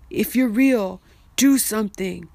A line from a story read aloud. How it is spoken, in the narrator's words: cried out to God